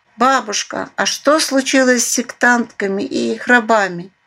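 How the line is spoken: Sudden mouse squeak. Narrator (Russian): неожиданно пискнула подавальщица Кристинка, полевая мышь

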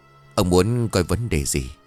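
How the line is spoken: Pleased, hoarse old voice. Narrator (Vietnamese): Ông thầy bói mù nghe vậy thì mừng lắm, nói với giọng khàn đục

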